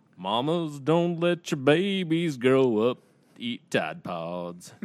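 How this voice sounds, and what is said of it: Sings in a country singer voice. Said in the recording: “in your best Willie Nelson voice? ... that sounded pretty country to me”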